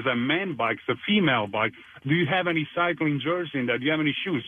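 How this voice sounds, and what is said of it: Italian accent. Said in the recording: “an Italian accent”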